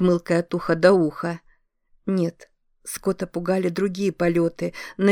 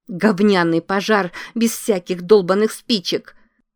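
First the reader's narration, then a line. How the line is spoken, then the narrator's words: Frightened, irritated exclamation. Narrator (Russian): воскликнула она, испуганная и раздраженная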